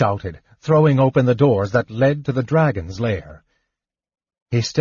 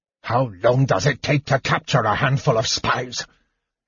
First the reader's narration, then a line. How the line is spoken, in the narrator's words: he demanded furiously